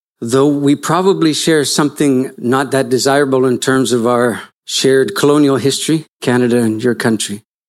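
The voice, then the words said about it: Non-local English accent. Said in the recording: “you can tell by my accent that I'm from slightly offshore”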